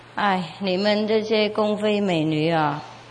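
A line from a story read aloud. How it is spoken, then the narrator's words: Sigh. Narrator (Chinese): 他就叹了一口气说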